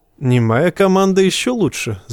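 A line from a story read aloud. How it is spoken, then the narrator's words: Laughing man. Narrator (Russian): засмеялся лесинеец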